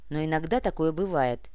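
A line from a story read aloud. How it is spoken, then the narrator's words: Sarcastic agreement. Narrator (Russian): язвительно согласился Муба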